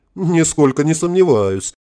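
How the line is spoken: Short chuckle. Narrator (Russian): хохотнул Александр Филиппович

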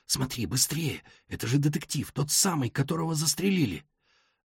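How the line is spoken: Hurried whisper. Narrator (Russian): торопливо зашептал

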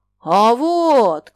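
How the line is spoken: Shout. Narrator (Russian): крикнул он

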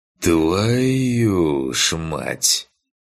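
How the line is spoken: Stunned exhale. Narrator (Russian): Ошарашенно выдохнул

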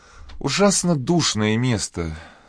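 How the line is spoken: Muttered through teeth. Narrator (Russian): сквозь зубы пробормотала миссис Мур

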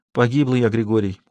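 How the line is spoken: Dejected, sinking voice. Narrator (Russian): упавшим голосом сказала Лукерья

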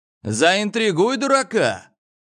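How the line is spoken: Shouting. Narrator (Russian): крикнул Гоша

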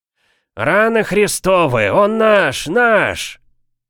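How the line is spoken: One-eyed man's growl. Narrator (Russian): прорычал одноглазый Торнан

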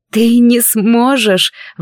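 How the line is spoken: Strained, forced out. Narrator (Russian): выдавила

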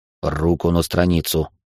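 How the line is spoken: Calm command. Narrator (Russian): спокойно приказал Георг

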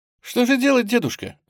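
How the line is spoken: Cheerful. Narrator (Russian): весело сказала Оля

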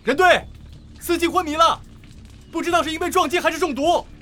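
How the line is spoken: Shouting. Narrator (Chinese): 刘辉喊道

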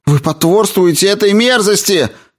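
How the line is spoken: Shouting. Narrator (Russian): закричала Мэри

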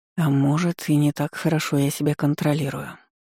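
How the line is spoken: Mutter. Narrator (Russian): пробормотал

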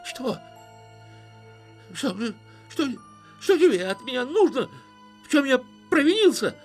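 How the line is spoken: Shrill, unrecognizable shout. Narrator (Russian): визгливо закричал Гулливер, сам не узнавая своего голоса

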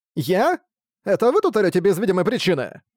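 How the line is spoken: Hurt, childlike voice. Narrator (Russian): ответил Ракард обиженным голосом несправедливо выруганного ребенка

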